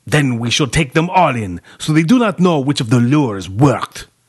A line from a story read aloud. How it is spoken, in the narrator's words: Romani spat, quaking